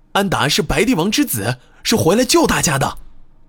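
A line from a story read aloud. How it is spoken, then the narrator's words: Loudly explaining. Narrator (Chinese): 乌达……大声解释道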